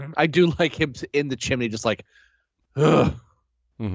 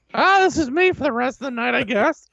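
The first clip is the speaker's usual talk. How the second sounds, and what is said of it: Impression of Christopher Lloyd's Fester. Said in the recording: “still Christopher Lloyd ... you got to do the voice, though.”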